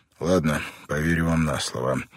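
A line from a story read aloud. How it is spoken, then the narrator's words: Sigh. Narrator (Russian): вздохнул Бен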